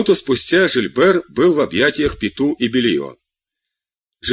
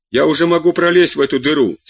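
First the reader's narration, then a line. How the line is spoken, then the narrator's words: Shouting. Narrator (Russian): закричал доктор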